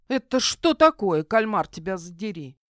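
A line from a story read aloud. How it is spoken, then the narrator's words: Pirate woman snorting. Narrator (Russian): хмыкнула пиратка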